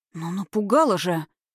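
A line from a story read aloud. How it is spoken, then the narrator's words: Relieved exhale. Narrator (Russian): с облегчением выдохнула Катерина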